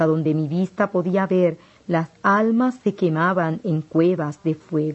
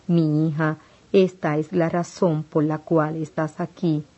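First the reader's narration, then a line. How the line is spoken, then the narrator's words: Plain reply. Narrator (Spanish): respondió Jesús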